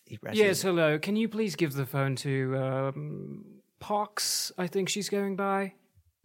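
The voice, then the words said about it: British accent. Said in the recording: “He sounds like a British person.”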